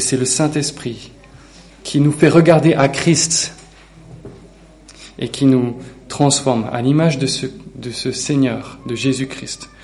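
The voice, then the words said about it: Slight non-local regional French accent. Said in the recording (French): “mon accent de Schnorr ... il n'est pas du Vaucluse. Il n'est pas de la région. ... Il y a un petit accent qui te fait reconnaître”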